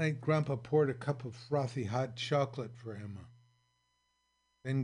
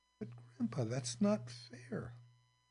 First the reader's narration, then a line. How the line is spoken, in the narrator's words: she whispered